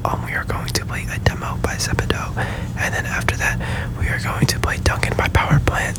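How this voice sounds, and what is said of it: Whispering. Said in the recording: “I'm whispering right now”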